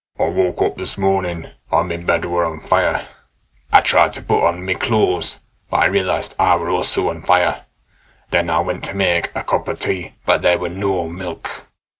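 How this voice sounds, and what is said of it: Deep Yorkshire accent. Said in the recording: “put on a deep Yorkshire accent”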